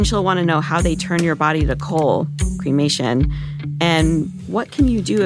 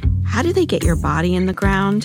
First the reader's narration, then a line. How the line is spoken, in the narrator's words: ask me sweetly